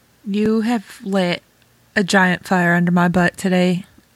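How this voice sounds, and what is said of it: Ohio-sounding American accent. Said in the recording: “Oh my gosh, I sounded so Ohio. I'm a New Yorker, Damien. That did not sound New Yorker.”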